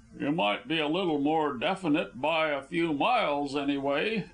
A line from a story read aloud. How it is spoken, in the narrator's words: Neil grumbled, showing by his tone that he disagreed